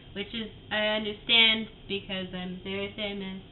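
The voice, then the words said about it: Imitates another person's voice. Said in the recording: “mixed with a 15-year-old girl, fucking teenage girl, who goes to like a private school ... that type of vibe is what I'm going for here with the impersonation”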